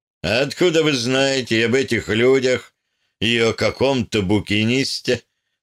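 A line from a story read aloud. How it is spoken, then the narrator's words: Mocking. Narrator (Russian): насмешливо спросил Хаусен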